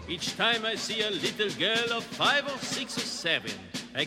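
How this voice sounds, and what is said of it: Sung English with exaggerated French accent. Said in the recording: “Peter Sellers ... un accent anglais absolument horrible ... with a marvelous French accent ... tout le burlesque de Peter Sellers”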